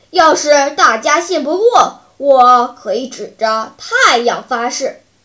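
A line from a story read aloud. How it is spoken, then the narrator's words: Loud bear. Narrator (Chinese): 大灰熊大声说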